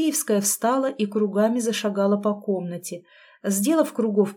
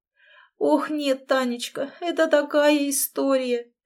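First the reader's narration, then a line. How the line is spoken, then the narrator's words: Tearful babbling. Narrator (Russian): пролепетала она сквозь слезы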